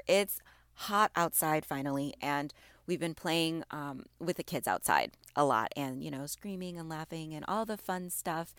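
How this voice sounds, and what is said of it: Slightly raspy, off-sounding voice. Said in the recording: “I still sound a little bit off. Again, it's allergies ... my voice being a little off with that and allergies ... I sound a little bit raspy”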